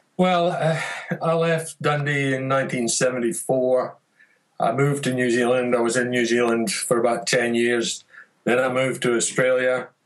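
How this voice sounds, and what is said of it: Mixed accent, faintly Scottish, Canadian-sounding. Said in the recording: “I don't really detect much of a Dundonian accent anymore ... I kind of got a little bit of everybody's accent ... the first thing they'll say to me is, "Are you Canadian?"”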